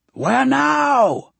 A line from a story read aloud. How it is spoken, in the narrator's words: Pai yells